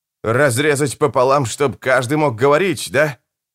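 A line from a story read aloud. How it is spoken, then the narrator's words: Half laugh, half groan. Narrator (Russian): Николетта то ли рассмеялась, то ли застонала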